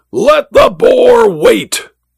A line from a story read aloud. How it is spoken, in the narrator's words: the Duke threw open the casement and roared